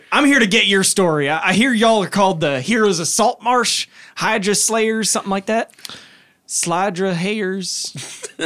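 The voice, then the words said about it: Character voice with hick accent. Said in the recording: “Is orcish just like a hick accent? ... I guess it is. ... So long as you're in that accent”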